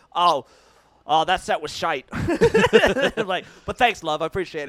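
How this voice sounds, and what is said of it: Attempted Cockney accent. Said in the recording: “That was my Cockney accent. Anyways, I tried.”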